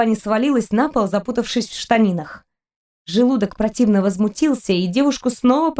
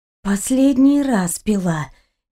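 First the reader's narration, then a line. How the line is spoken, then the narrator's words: Nauseous moan. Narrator (Russian): Кристина простонала, чувствуя новый приступ тошноты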